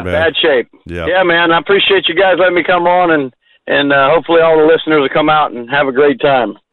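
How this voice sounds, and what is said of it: Slight Southern twang. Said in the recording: “you got a little twang in your voice”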